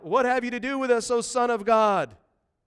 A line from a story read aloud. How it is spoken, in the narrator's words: cried out